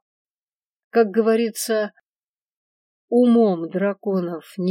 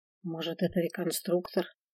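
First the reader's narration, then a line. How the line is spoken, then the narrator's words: Quiet question. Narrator (Russian): тихо спросила я Свена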